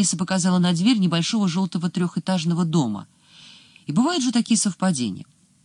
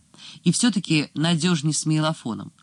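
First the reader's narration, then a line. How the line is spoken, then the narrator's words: Plain. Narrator (Russian): сказал Сулейма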